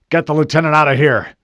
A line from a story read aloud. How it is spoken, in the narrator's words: the Master Chief barked